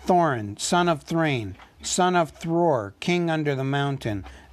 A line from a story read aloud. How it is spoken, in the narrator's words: said the dwarf in a loud voice